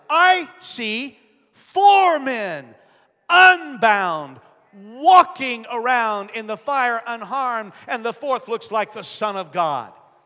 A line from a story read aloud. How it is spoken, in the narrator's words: Nebuchadnezzar shouted